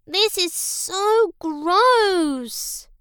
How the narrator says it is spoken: she moaned

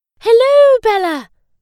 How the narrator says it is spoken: the ballerina cried

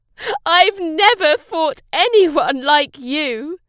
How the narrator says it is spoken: the Red Knight laughed

